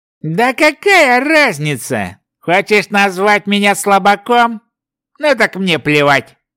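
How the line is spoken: Scoffing. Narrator (Russian): хмыкнул Ротлик

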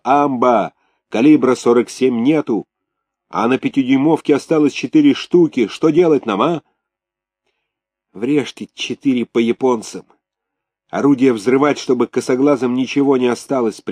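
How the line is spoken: Yelling into ear. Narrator (Russian): Макаренко орал мичману в ухо

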